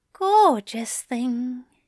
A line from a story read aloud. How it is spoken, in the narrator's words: Aziraphale murmured, still kissing him